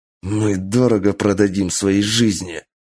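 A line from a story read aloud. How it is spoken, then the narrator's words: Wounded hoarse rasp through teeth. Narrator (Russian): прохрипел сквозь зубы раненый в колено и плечо генерал Кэнджи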